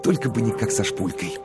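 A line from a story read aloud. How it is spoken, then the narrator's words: Whisper. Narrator (Russian): Коровин прошептал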